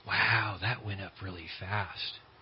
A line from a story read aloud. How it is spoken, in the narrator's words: him whisper to himself